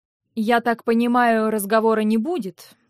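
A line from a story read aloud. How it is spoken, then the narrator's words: Grumbling. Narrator (Russian): проворчал он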